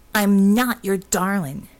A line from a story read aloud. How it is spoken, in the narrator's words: she snapped